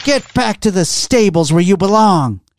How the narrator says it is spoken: She cried

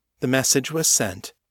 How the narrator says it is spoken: the woman said, in the same unflappable tone of voice

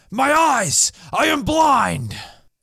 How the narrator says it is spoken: Worden exclaimed

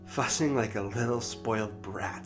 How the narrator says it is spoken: she laughed

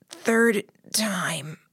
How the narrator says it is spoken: I croaked the words

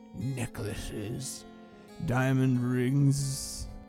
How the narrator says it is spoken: he slurred

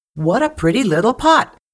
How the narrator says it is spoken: Anansi exclaimed

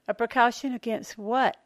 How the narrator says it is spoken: Elaine asked nervously

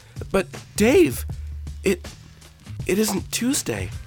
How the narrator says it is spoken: He could only exclaim

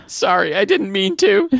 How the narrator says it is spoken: he whimpered

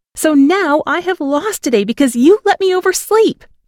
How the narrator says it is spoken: I screamed

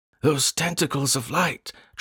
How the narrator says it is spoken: Travis was yelling thinly in my ear

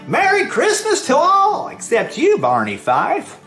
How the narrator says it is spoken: we heard him exclaim as he ran through the night

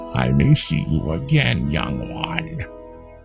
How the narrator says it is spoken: growled

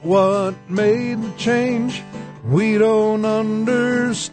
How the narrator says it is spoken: People cried out

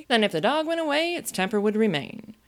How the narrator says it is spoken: the Queen exclaimed triumphantly

